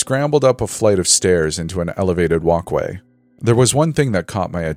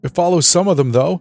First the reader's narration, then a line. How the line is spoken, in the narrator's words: she said unsteadily